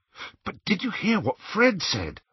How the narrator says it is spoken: asked Harry excitedly

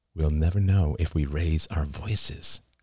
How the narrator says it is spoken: murmured Oliver

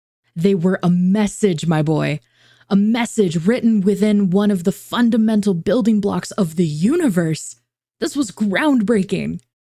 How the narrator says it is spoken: exclaimed with all the enthusiasm befitting a breakthrough of this enormity

